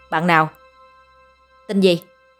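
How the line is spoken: Stern. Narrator (Vietnamese): Thanh niên kia nghiêm giọng

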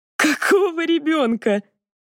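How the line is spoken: Laughing. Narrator (Russian): Данка даже рассмеялась

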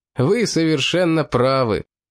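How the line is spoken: Playful laughing. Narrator (Russian): задорно рассмеялся аланец

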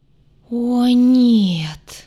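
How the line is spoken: Sudden groan. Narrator (Russian): Внезапно застонал целитель

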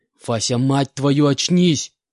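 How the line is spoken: Full-throated shout. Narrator (Russian): прокричал я во всю глотку

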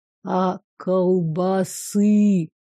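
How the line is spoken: Gloomy drawl. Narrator (Russian): Существо мрачно протянуло новое слово

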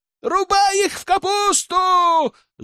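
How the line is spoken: Yelling from the bushes. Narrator (Russian): завопили из кустов

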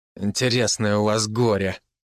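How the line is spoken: Angry remark. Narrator (Russian): зло заметил Лукас

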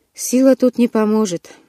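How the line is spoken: Sighing. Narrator (Russian): вздохнул Лоран

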